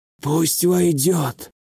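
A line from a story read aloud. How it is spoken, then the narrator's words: Hoarse strained voice. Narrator (Russian): Хрипло с надрывом произнесли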